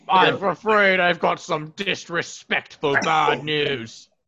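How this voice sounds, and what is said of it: Deep put-on British accent. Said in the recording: “He has too deep of a British accent. I can't get that deep with it. ... That hurts the throat.”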